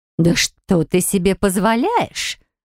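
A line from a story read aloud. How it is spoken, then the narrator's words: Fearful hiss. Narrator (Russian): зашипела она, будто боялась, что наш разговор может подслушать невеста Варлеона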